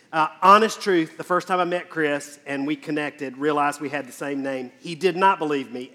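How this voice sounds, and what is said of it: Southern American accent. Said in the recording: “my very distinguished and sophisticated accent, ... I grew up in a small town in South Carolina”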